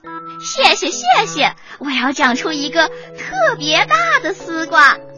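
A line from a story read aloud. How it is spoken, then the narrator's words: Smiling, hopeful. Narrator (Chinese): 第一朵丝瓜花微笑着说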